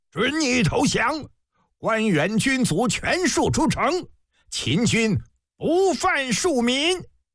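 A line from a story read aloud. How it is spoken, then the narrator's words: Shouting. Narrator (Chinese): 高高望楼上的蒙骜大喊一声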